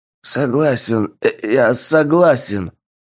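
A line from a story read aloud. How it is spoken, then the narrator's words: Hoarse wheeze. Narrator (Russian): прохрипел француз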